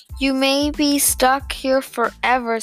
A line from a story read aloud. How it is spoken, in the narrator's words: said Mr